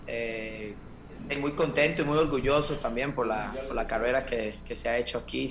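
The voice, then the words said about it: Costa Rican Spanish accent. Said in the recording (Spanish): “acento tico ... no lo ha perdido para nada”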